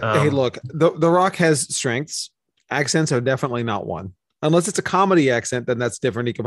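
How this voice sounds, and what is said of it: Usual voice. Nothing is said of it.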